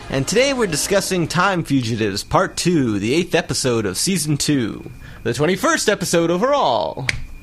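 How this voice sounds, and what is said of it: Exaggerated radio announcer voice. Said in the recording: “You really got your announcer voice on.”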